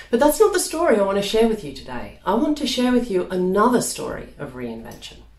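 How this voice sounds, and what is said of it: Australian accent with London influence. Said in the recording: “You might be hearing a strange accent... I moved from Melbourne in Australia, my hometown, over here to London... That's the accent you can hear”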